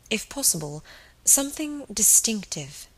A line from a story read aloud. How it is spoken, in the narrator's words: she sighed